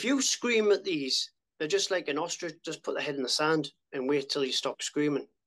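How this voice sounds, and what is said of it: Northeast English accent. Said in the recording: “with a northeast accent”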